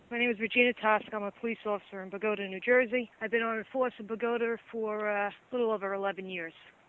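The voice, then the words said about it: Noticeable regional American accent. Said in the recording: “Even though your accent says Pagoda, right? Where are you from?”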